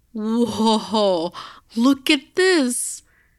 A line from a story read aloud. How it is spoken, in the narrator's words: Jo shouted from the farthest bedroom